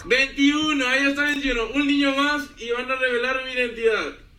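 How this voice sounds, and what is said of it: Strong Mexicali (cachanilla) Mexican accent. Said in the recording (Spanish): “su acento bien cachanilla”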